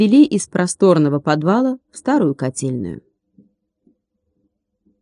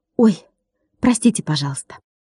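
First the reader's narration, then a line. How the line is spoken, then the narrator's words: Hurried, beaming. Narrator (Russian): Сияя глазами, он торопливо сказал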